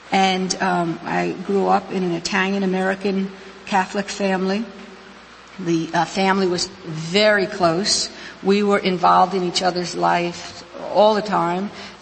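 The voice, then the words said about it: New York accent. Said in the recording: “why I have this accent that I have ... I was actually born and raised in New York City, the section called Queens and partially in Brooklyn”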